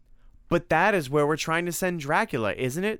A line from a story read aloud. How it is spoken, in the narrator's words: said Tim excitedly